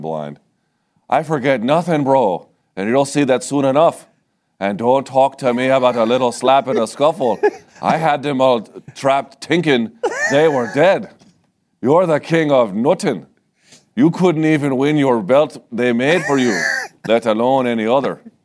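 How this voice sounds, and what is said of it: Mediocre Irish accent, Conor McGregor impression. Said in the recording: “I don't present this as a good Irish accent, just the best one that I can come up with.”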